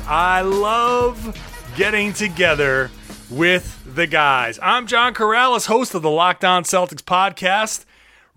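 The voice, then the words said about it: Excited, energetic voice. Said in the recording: “Oh yeah, baby, I am extra excited. Can you hear it in my voice?”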